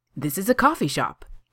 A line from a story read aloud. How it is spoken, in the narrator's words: Kaner said brightly